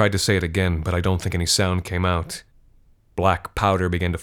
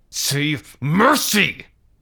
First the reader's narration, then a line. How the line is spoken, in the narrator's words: he shouted